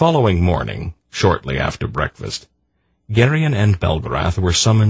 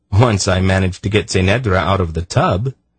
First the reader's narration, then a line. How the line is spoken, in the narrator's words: Geryon laughed